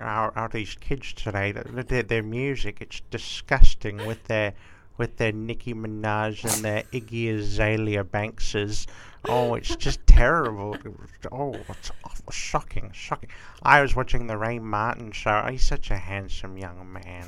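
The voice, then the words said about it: Grandmotherly old woman voice. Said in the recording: “do a really good voice. It's like a sort of grandmotherly voice.”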